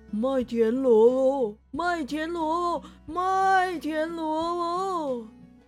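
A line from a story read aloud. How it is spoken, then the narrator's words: Shouting from outside. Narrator (Chinese): 外面有人在大喊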